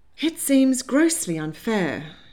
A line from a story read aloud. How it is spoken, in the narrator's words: she sighed